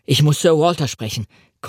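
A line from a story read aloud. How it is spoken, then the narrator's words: Panting. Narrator (German): keuchte ich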